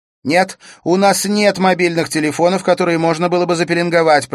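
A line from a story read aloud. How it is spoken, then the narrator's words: Shouting over sirens. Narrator (Russian): прокричала она, чтобы ее было слышно за гулом сирен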